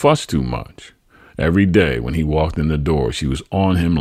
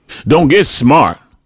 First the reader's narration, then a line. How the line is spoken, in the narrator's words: my mother barked